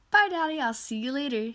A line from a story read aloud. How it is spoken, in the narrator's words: exclaimed